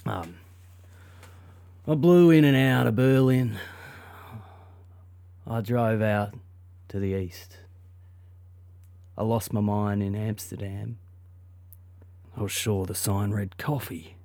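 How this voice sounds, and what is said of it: Thick put-on Australian accent. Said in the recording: “I'll do it in a thick Aussie accent.”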